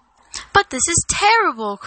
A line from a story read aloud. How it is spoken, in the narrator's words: cried Frodo